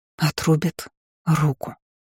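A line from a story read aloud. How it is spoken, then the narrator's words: Breathless whisper. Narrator (Russian): прошептала я, тяжело дыша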